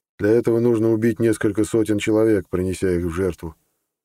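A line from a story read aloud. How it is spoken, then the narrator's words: Dry, old man. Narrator (Russian): сухо пояснил старик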